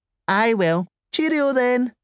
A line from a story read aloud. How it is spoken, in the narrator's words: said the woman brightly